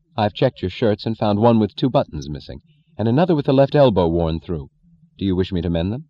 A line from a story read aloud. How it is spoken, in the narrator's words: said dryly, efficiently, in deliberate denial